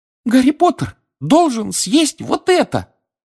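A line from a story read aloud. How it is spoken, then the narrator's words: Squeaking. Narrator (Russian): пискнул эльф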